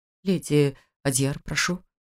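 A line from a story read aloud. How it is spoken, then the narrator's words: Stammering. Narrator (Russian): заикающимся голосом произнес он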